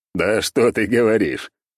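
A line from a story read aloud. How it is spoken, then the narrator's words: Laughing. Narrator (Russian): расхохотался я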